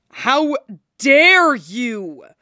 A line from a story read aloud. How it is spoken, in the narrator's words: roars, even as he lands and staggers a step